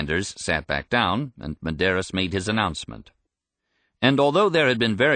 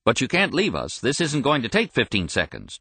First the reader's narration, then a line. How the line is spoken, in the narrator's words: said curtly